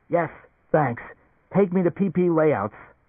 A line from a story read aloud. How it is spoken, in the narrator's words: Gasping, almost unable to breathe, Leo said